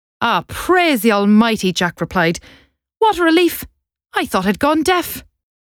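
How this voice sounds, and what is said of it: Put-on Irish accent. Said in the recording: “Irish accent.”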